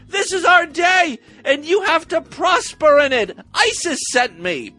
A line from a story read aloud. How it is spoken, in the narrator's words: He pranced through the yard naked, yelling